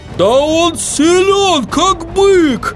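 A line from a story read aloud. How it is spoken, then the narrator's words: Yelled. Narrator (Russian): завопил Хороша Гора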